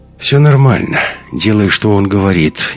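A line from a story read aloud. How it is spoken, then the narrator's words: Uncertain. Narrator (Russian): неуверенно сказал хохол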